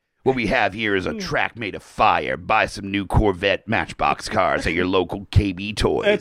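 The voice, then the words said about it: Toy commercial announcer voice. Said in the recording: “He just talks like he's about to sell you some fucking really rad Matchbox cars in a commercial ... It's the Vin Diesel Street Sharks commercial ... Holy shit, that is good ... That's your accent that you can do.”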